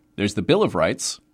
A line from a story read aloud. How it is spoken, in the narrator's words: said Charlie